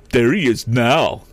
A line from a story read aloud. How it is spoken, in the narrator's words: exclaimed Sam